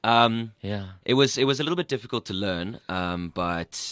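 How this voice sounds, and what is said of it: Scottish accent. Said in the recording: “keep speaking Scottish ... it was wonderful ... your accent”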